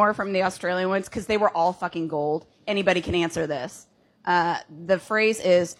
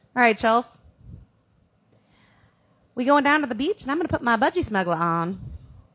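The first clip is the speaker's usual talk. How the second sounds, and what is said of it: Poor attempt at Australian accent. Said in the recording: “I don't know how to do a Australian accent ... It's pretty terrible.”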